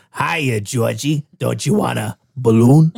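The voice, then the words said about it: Tim Curry's Pennywise impression. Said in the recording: “do your impression ... Pennywise ... the old Pennywise ... it's definitely Tim Curry.”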